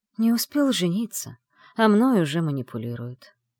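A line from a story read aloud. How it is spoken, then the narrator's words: Sighing. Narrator (Russian): вздохнул Шейс Салех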